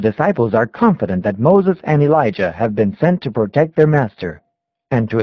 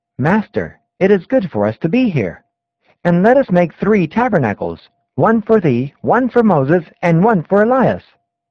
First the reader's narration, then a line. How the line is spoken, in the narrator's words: Peter exclaims